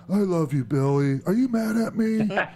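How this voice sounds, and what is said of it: Impression of wrestler Abyss. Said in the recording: “my Abyss impression”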